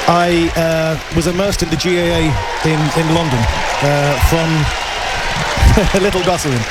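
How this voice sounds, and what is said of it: London accent. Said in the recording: “as many people will know about my accent, I grew up in London.”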